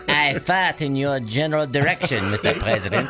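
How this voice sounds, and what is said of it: Put-on French accent. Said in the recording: “your French impression”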